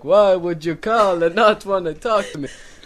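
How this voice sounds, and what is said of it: Put-on Jewish accent. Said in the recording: “All of a sudden, I have a Jewish accent. ... Okay. Jewish accent.”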